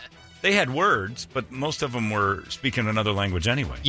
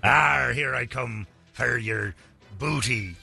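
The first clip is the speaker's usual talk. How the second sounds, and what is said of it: Stereotypical pirate voice. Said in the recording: “pirate accent”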